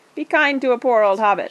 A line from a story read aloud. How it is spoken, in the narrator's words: laughed Frodo